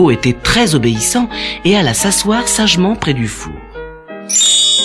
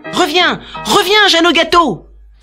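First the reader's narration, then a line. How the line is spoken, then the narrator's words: Exclaimed. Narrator (French): s'écria Léo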